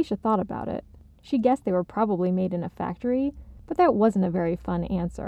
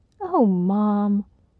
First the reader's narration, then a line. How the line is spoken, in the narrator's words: Alicia's mom sighed